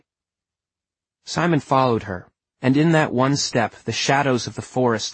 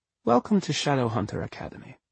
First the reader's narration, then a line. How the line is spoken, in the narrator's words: said Caterina Loss, her voice gentle